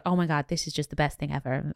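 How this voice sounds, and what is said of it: Poor put-on American accent. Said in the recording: “American accent, terrible.”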